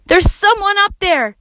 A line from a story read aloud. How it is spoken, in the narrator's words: yelled Max